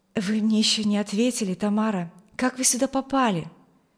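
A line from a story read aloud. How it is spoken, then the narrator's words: Young man's pleading question. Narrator (Russian): Умоляющим тоном спросил ее юноша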